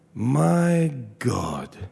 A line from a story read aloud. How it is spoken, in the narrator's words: murmured softly